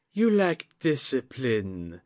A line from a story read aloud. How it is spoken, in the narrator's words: Atsuko cooed